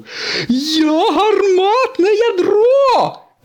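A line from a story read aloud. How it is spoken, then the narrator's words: Shrieking. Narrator (Ukrainian): заверещав сирник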